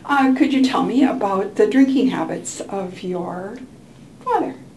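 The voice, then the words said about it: Formal therapist intake-interview voice. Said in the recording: “in my best intake voice”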